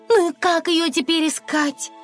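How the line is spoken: Agitated question. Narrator (Russian): взволнованно спросила она

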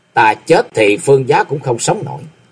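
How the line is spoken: Cold female reply. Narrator (Vietnamese): Nữ sát thủ lạnh lùng đáp lại

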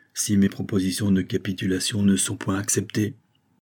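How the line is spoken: Murmured. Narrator (French): murmura-t-il

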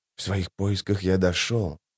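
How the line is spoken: Quiet and measured. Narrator (Russian): тихо и размеренно проговорил Радфеннер

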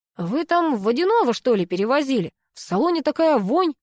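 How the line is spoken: Distant shout. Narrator (Russian): крикнул из ангара один из мужиков

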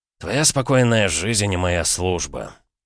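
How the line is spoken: Gloomy summing up. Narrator (Russian): мрачно подытожил Полозов-старший

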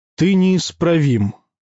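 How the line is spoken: Sighing. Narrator (Russian): вздохнул Юлий

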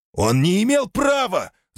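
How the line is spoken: Soldier yelling back. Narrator (Russian): заорал в ответ другой солдат

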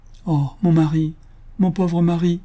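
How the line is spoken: Grief-stricken widow's cry. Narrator (French): s'écria la veuve, qui, dans l'excès de sa douleur

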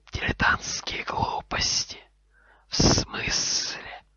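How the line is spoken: Hissing. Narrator (Russian): прошипел Гарри

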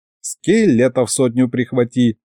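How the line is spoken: Old man's giggle. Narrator (Russian): хихикнул дед

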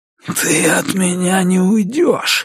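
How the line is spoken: Breathy exhale. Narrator (Russian): выдохнул

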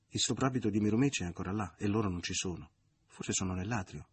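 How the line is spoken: Plain. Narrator (Italian): rispose Lisa

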